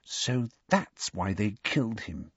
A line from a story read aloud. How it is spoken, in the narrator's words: she said quietly